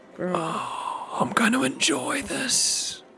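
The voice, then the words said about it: Horrible, scary character voice. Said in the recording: “Horrible, scary voice.”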